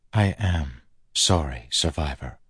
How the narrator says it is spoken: Chris said softly

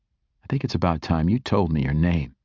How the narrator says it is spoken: Lucas said

